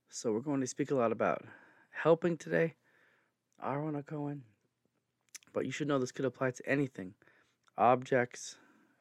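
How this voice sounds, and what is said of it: Strained, fading hoarse voice. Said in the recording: “I'm losing my voice between talking too much and allergies”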